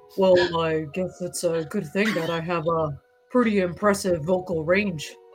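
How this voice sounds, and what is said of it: Speaking in an exaggerated deep low voice. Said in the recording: “you must speak in your lowest tone ... a deep voice for a little lady”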